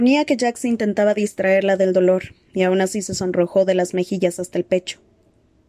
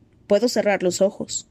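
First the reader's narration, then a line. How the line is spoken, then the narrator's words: Plain. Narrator (Spanish): le dijo Jax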